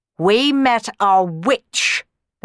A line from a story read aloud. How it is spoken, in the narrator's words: the Baron snarled